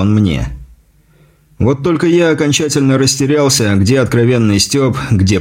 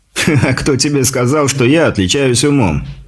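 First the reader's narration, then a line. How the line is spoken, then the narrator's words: Chuckle amid group laughter. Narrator (Russian): хохотнул Дикий, поддержанный дружным смехом товарищей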